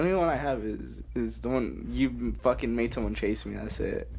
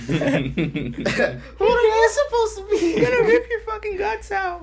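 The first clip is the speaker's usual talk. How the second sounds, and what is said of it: Squeaky horror villain voice. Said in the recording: “Michael Myers with a squeaky voice?”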